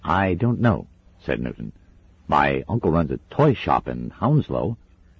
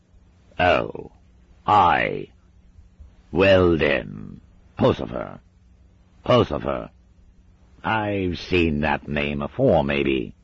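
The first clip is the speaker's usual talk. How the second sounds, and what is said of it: Unplaceable shifting British regional accent. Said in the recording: “Mr. Shadwell's accent was unplaceable. It careered around Britain like a milk race. Here a mad Welsh drill sergeant, there a High Kirk elder who'd just seen someone doing something on a Sunday. Somewhere between them, a dour Dalen shepherd or bitter Somerset miser. It didn't matter where the accent went, it didn't get any nicer.”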